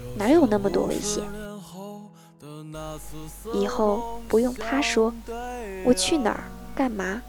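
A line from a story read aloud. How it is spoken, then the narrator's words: Muttering quietly. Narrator (Chinese): 我小声嘀咕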